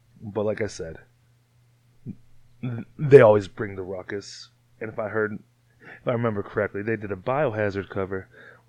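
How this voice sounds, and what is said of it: Strained, sore-throated voice. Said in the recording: “I'm sorry about my throat. It hurts. I'm screaming.”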